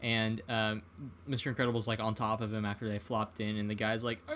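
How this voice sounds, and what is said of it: Usual voice. Nothing is said of it.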